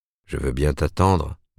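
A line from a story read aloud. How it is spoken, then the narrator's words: Grumbling. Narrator (French): bougonna-t-il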